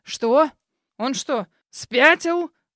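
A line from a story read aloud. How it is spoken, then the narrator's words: Roar. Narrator (Russian): Взревел мистер Бакстер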